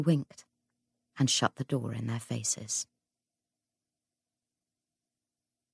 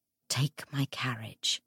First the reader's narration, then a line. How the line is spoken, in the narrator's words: Anna whispered